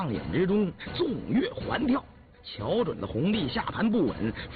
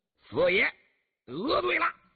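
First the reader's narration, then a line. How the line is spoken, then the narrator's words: Loud shout. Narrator (Chinese): 老四邢建义……大叫了一声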